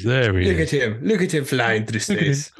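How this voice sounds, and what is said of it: Terrible put-on Irish accent. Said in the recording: “Why have we got Irish? ... why am I Irish? ... Terrible accents.”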